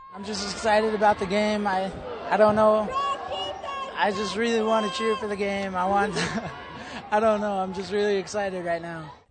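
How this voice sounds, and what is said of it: Strained, hoarse voice. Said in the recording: “I gotta cheer as loud as I can. I'm starting to lose my voice, actually.”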